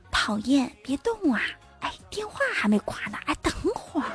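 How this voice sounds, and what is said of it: Soft, quiet murmured voice. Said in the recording (Chinese): “小声的说一句”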